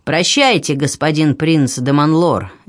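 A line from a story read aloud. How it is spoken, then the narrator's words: Sharp shout. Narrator (Russian): резко прокричал граф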